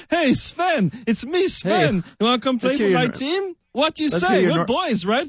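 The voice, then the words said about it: Put-on Danish accent. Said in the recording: “You want to hear my Denmark impression?”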